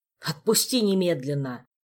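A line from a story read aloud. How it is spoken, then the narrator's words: Angry snap. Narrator (Russian): сердито огрызнулся мокрый король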